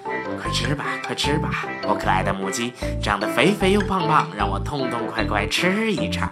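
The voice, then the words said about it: Quiet muttering chant. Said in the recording (Chinese): “他小声的。念叨着”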